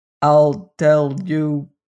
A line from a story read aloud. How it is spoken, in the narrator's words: answered TikTok in his monotonous voice, all the sounds of his words being on one level